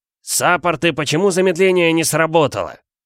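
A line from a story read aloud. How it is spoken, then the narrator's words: Very loud bark. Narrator (Russian): Во весь голос гаркнул магистр так, что, наверное, услышали даже в крепости Верт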